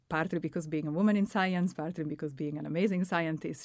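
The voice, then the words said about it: Italian accent. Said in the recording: “your Italian accent”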